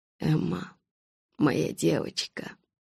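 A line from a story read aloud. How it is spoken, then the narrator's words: Muttering. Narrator (Russian): пробормотал он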